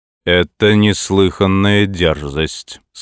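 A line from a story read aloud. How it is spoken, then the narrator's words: Harsh, angered. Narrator (Russian): сказал король, снова ожесточившись, как только Хаким стал говорить высокомерным, почти повелительным тоном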